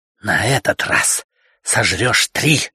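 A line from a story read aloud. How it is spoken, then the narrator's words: Slow, gloating, through teeth. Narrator (Russian): с расстановкой процедил Фрэнк, наслаждаясь своей властью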